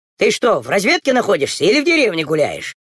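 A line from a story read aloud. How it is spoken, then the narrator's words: Distant shout. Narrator (Russian): еще издали крикнул ему Андроников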